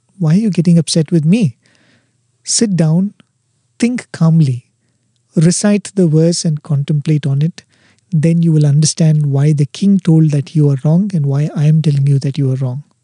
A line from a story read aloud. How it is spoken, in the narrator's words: The wife very calmly tells him